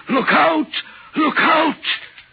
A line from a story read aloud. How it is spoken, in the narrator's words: the voice seemed hoarse with shouting, and it cried